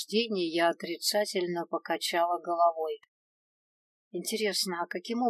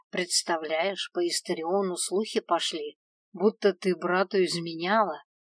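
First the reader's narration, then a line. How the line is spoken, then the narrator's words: Young woman's whisper. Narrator (Russian): отчего-то шепотом проговорила девушка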